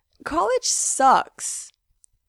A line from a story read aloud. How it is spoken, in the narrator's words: Frank says sadly